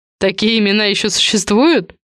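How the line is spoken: Restrained laughter. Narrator (Russian): Неля сдержанно рассмеялась

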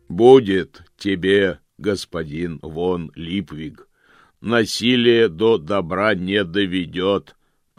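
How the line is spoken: Booming. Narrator (Russian): прогремел Помпа

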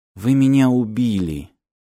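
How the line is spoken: Quiet. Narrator (Russian): тихо сказала

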